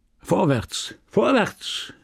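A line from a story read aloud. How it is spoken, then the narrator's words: Called out. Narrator (German): rief er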